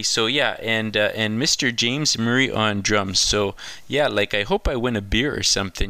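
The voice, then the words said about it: Exaggerated parody Canadian accent. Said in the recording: “a bit of a parody of the Canadian classic comedy show SCTV”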